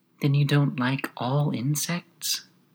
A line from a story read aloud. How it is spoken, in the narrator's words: the gnat went on as quietly as if nothing had happened